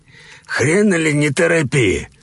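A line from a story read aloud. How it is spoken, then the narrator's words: Old man's menacing growl. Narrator (Russian): грозно прорычал старик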